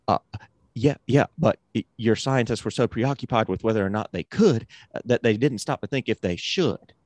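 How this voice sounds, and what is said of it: Imitates another person's voice. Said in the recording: “This is my Goldblum impression. ... horrible impression”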